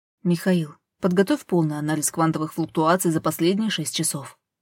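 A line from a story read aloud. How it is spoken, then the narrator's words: Plain. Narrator (Russian): сказала она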